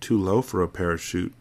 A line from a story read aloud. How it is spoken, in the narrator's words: Brian murmurs